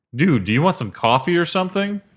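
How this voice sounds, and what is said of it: Impression of Stuart. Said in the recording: “It's a pretty good impression.”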